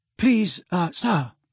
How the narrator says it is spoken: said Parvati breathlessly

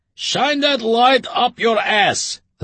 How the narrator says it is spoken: the father shouted

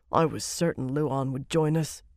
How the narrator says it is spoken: Conail muttered

